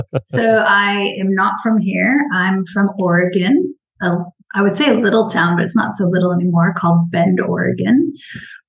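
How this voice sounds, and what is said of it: Non-local foreign-sounding accent. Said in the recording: “by the sound of your accent, you're obviously not from here”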